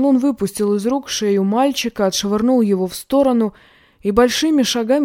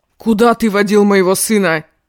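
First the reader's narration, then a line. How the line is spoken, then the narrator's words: Angry shouting. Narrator (Russian): Ван Лун закричал на него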